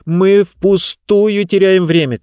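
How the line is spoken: Shouted. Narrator (Russian): крикнула она

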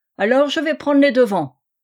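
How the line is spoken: Furious exclamation. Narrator (French): s'écria Ferrier, furieux

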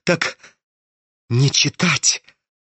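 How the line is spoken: Wary whisper through crooked smile. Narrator (Russian): прошептал он ему как-то опасливо, скривившуюся улыбкой на посиневших губах

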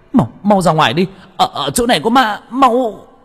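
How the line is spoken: Panicked shout. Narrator (Vietnamese): tôi hét lên

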